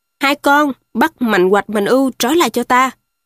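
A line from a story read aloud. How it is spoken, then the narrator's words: Thunderous roar. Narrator (Vietnamese): Phong quát lớn lên như sét nổ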